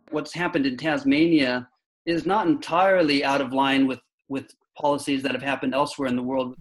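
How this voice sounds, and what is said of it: American accent. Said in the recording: “as you might have guessed from his accent, he grew up in America”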